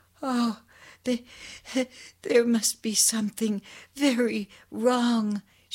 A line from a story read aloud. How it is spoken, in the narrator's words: she sobbed